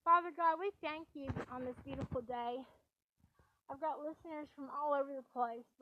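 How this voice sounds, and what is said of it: Raspy, hoarse voice. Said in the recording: “my voice is still raspy from being sick”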